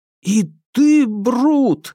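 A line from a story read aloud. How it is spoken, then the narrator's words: Mock-horrified exclamation. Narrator (Russian): в шутливом ужасе воскликнул я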